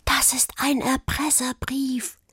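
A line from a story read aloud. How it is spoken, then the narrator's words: Whisper. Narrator (German): flüsterte Juli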